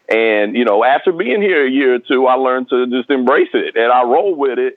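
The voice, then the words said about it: Speaks with a twangy accent. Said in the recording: “my accent ... that twang”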